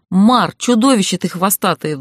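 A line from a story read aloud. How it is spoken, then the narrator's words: Wailing. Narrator (Russian): взвыла я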